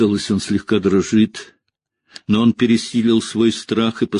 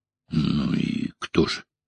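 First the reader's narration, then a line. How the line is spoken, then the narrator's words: Hoarse rasp. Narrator (Russian): прохрипел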